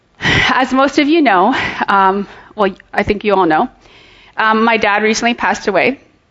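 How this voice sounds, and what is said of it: Scratchy, slightly hoarse voice. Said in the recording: “after singing all morning and then singing and shouting just now, my voice gets a little bit scratchy”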